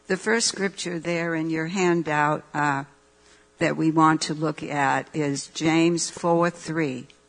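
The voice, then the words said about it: Raspy voice. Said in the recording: “My voice has gotten very raspy, as you can tell... my voice is gotten raspy.”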